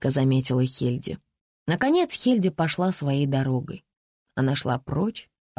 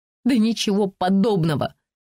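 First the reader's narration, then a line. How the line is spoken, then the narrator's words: Snort. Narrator (Russian): фыркнула Хельди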